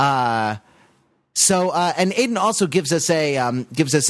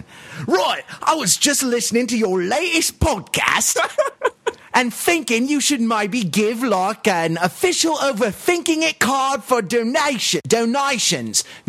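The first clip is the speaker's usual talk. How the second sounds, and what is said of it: Put-on British accent. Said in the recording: “I'm going to do a British accent.”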